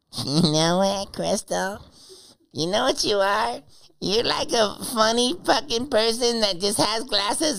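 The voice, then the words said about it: Impression of Sheen. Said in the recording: “do the voice ... Sheen ... Pretend you're Sheen trying to get a Crystal”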